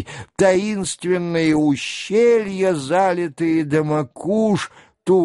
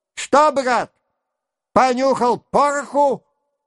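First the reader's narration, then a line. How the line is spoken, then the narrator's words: Shouted in ear. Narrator (Russian): прокричал ему над ухом голос Васьки Денисова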